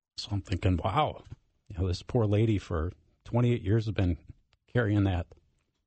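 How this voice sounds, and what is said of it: Choked-up, emotional voice. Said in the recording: “as you can tell, I get a little choked up”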